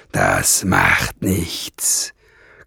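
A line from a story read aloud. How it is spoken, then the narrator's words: Growled. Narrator (German): knurrte Nesselbrand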